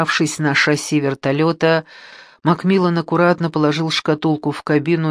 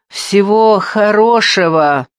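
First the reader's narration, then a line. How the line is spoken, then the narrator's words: Shouted. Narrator (Russian): крикнул Макмиллан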